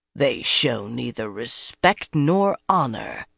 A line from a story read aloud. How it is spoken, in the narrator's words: Tarava growled